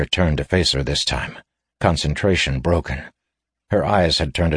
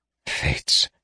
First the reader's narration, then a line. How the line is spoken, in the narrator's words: he muttered